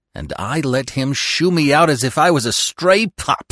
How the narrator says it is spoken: he muttered through clenched teeth

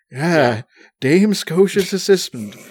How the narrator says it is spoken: he exclaims

